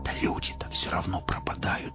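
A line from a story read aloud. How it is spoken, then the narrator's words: Whispered objection. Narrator (Russian): возразил Костик почему-то шепотом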